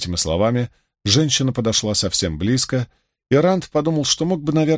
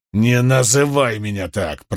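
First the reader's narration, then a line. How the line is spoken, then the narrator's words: Growled. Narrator (Russian): прорычал он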